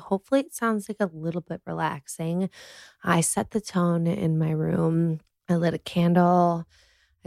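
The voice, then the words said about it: Nasal voice from a cold. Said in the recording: “I have a little bit of a cold, so I'm sorry if I sound like so nasally.”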